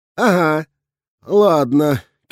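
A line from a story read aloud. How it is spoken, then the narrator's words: Sour sigh. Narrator (Russian): кисло вздохнул я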